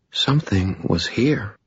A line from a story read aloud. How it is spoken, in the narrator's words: she whispered